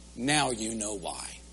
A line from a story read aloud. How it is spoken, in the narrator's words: Khrushchev replied quietly